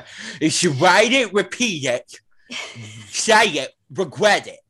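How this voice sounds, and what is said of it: Imitates another person's voice. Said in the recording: “your Dorinda impression. It's so good.”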